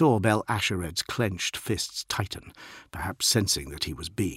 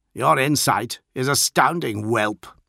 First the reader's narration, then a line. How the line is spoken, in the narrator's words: the captain snapped, contempt thick in his voice